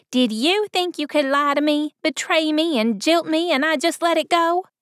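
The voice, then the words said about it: Sharp young woman, southern accent. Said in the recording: “the young lady's flinty voice ... her tone, laced with a quaint southern accent, was sharp as an arrowhead.”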